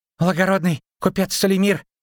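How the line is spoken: Dwarf breathing out. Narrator (Russian): выдохнул гном

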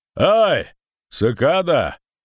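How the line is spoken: Shout. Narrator (Russian): крикнул Войд

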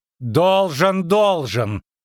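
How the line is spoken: Loud interruption. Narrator (Russian): прервала Веспуля громко

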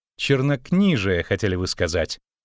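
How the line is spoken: Scornful snort. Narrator (Russian): Богольд фыркнул

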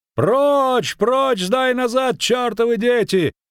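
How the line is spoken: Shout. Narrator (Russian): кричал конный

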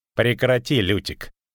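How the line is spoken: Snort. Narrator (Russian): фыркнул Данти

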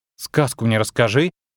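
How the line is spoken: Scornful snort. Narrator (Russian): фыркнула

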